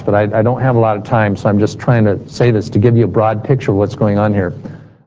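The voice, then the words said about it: Speaking very fast. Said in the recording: “I know I'm saying this really fast”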